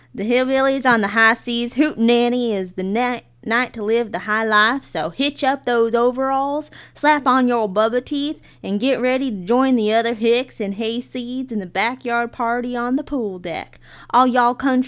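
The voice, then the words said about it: Put-on hillbilly accent. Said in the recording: “You got to do it with a hillbilly accent. ... let me see if I can pull out my inner Terre Haute.”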